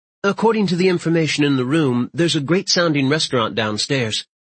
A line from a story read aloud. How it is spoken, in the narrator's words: She quickly changes the subject with